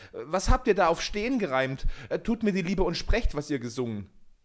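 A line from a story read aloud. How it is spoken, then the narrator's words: Calling out. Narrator (German): rief er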